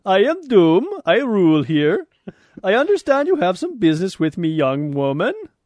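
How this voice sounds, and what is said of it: Mock Latverian, Swedish-like accent as Doctor Doom. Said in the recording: “Latverian accent? ... kind of like a Swedish hybrid”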